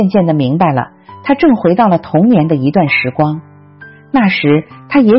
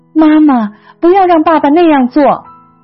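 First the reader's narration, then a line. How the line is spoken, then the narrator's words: Crying out. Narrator (Chinese): 她随后又哭喊着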